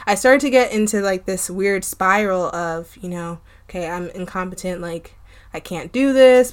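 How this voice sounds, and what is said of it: Strained, fading voice. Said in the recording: “I'm losing my voice today”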